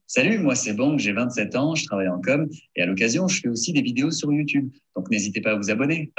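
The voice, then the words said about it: Country Southern French accent. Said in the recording (French): “the country accent... It sounds country... Southern French.”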